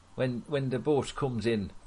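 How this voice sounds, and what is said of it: Put-on Geordie accent. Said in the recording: “It was a Geordie accent.”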